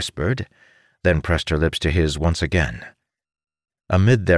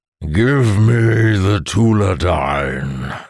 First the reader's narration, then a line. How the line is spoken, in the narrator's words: the monster bellowed